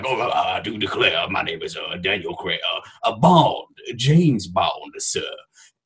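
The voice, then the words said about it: Exaggerated put-on Louisiana accent. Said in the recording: “that bullshit Louisiana accent”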